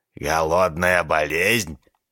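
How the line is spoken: Doctor's snort. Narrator (Russian): фыркнул доктор

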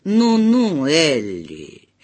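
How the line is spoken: Reproachful snort. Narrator (Russian): Дядя Морис укоризненно хмыкнул

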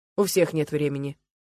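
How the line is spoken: Cold. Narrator (Russian): холодно сказал Михаил

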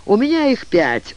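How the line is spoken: Laughing. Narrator (Russian): рассмеялся

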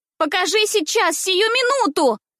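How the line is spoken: Shrill shout. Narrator (Russian): кричала она пронзительно

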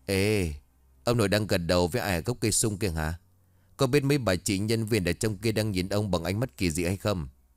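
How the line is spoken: Deep husky voice. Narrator (Vietnamese): Giọng nói ồm ồm của thằng Minh bấy giờ lại vang lên

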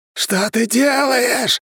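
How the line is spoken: Curse yelling. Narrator (Russian): заорало проклятие

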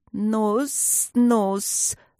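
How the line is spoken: Good-natured hiss. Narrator (Russian): добродушно зашипела ближняя змея

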